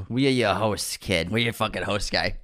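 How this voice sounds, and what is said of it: Exaggerated Boston accent. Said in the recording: “get rid of the Boston accent when I say, we are your host”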